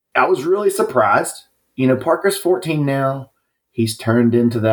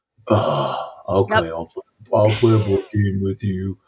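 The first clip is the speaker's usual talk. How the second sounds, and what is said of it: Imitates a 14-year-old's voice. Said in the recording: “You're doing an impression of my 14-year-old”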